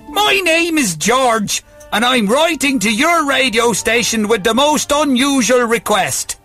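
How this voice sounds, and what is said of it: Put-on Irish accent. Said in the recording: “Would you like me to read this in an Irish accent? ... I can stop the accent whenever.”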